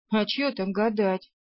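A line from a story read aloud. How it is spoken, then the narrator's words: Chuckling, fat woman. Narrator (Russian): хохотнула толстуха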